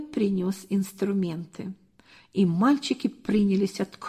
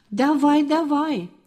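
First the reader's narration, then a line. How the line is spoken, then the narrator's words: Yelling. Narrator (Russian): завопил Толик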